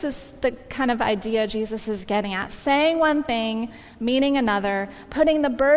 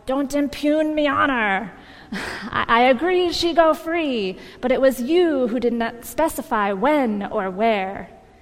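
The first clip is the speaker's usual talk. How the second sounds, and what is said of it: Pirate accent, Barbossa impression. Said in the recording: “That's a good pirate accent, right?”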